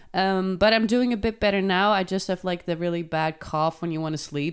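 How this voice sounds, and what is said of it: Sick-sounding voice. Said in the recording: “I've been sick this week. Unfortunately, you can still hear it in my voice.”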